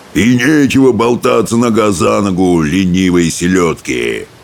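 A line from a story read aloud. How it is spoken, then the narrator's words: Blowhard's roar. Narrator (Russian): взревел брехун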